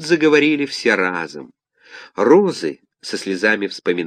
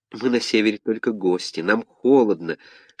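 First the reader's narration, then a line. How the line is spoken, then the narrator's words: Many plants whispering. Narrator (Russian): шептали все эти южные растения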